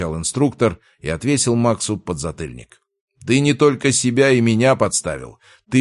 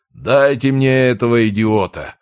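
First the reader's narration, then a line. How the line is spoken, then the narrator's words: Roaring. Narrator (Russian): проревел Рязанцев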